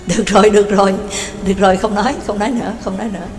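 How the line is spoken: Bursting laughter. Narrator (Vietnamese): Cương Nhật Phổ Bạc cười phá lên

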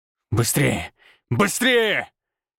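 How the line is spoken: Growling. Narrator (Russian): рычал я

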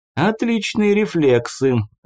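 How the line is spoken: Laughing, familiar voice. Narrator (Russian): рассмеялся неизвестный знакомым голосом

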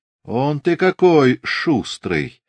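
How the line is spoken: Ingratiating, insinuating. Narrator (Russian): вкрадчиво проговорил Григорий

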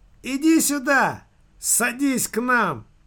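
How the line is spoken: Shout. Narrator (Russian): крикнул

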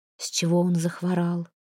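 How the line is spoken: Undertone question. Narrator (Russian): вполголоса спросила Прекраса у Ратислава

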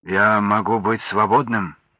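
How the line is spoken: Plain. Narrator (Russian): спросил он

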